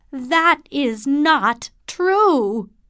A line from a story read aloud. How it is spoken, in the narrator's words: cried Morris